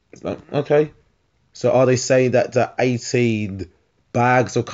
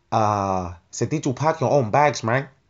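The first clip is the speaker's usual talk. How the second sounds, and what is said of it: Poorly done put-on accent. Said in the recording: “that's a horrible accent”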